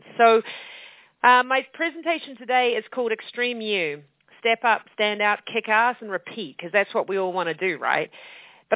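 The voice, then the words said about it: New Zealand accent. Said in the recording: “this crazy lady with an accent? ... I'm actually from New Zealand”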